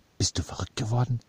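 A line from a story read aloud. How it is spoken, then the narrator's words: Hissing. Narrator (German): zischte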